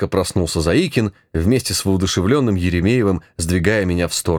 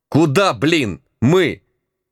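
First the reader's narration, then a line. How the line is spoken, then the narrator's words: Barked. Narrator (Russian): опомнившись, рявкнул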